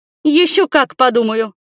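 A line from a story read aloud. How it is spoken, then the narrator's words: Exhausted snapping. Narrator (Russian): Из последних сил нашла возможность огрызнуться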